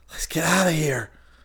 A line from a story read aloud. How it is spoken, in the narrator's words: Chris gasped